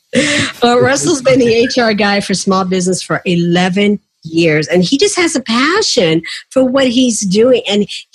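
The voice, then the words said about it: Southern drawl. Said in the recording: “That's Southern drawl in me sometimes can't get some of those words out.”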